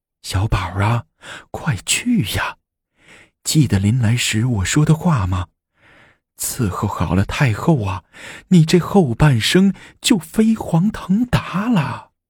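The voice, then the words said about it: Quiet, hushed urging. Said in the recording (Chinese): “小声催促着”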